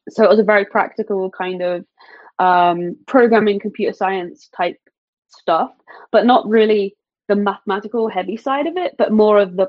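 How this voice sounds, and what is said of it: British accent. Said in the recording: “obviously you have an accent ... I'm from the UK ... still kind of have the accent, like it's kind of there”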